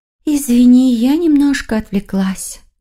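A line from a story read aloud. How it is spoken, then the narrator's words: Sighing. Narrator (Russian): вздохнула Юнхи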